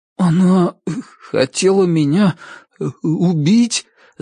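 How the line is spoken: Stammering. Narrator (Russian): заикаясь, проговорил Ричард

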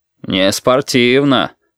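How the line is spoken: Deep bass voice. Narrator (Russian): пробасил физрук

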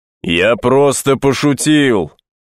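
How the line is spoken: Thunderous shout. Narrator (Russian): крикнул мне вдогонку Дон Хуан громовым голосом

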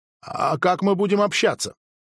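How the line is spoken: Giggling reply. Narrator (Russian): Голосом ответила Милана и хихикнула

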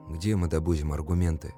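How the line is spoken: Muttering. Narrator (Russian): пробормотал я

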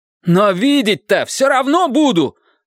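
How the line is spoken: Yelling. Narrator (Russian): заорал

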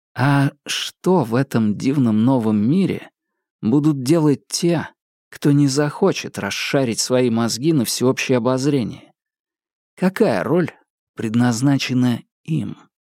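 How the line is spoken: Quiet question, student. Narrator (Russian): тихо спросил студент

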